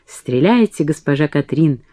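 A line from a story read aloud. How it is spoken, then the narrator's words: Whisper. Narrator (Russian): прошептал Жоз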